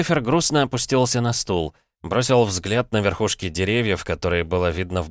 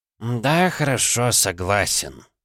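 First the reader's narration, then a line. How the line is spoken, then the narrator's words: Heavy sigh. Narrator (Russian): тяжело вздохнул он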